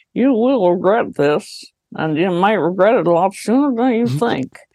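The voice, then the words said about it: Mitch McConnell impression. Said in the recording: “Mitch McConnell essentially proved this when he was talking about ... That's pretty good. That's good. ... I do a lot of great impressions”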